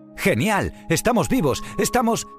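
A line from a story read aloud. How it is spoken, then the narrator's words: Surprised exclamation. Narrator (Spanish): exclamó Baiana mientras miraba sorprendida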